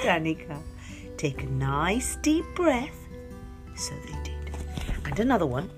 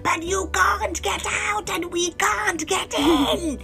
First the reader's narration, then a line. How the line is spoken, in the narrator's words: shouted her mum